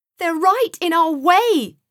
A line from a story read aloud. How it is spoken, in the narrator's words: Joseph shouted back to Sam